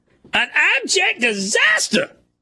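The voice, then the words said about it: Imitates another person's voice, poorly. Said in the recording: “In Stephen A. Smith voice ... Not my best Stephen A. Smith impersonation ... It was not great. ... It was not very good.”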